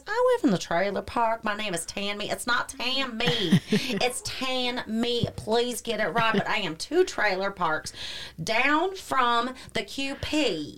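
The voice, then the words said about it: Put-on Southern accent. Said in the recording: “I love doing a Southern accent. I'm probably better at it than all these guys ... A good accent.”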